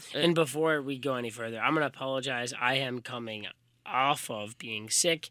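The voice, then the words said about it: Raspy, lower-than-usual voice. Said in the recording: “My voice is a little raspy. ... I've got a pretty high voice, but, you know, it's a little lower today.”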